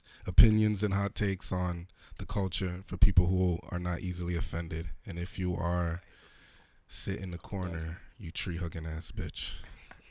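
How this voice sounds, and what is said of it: Slightly hoarse voice. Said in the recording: “Apologize for my voice. I'm a little hoarse.”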